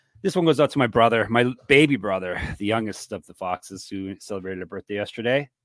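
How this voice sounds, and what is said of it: Strained, failing voice. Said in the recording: “losing my voice already”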